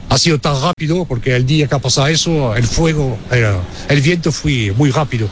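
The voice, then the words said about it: French speaker with Almerian Spanish accent. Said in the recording (Spanish): “francés con acento almeriense”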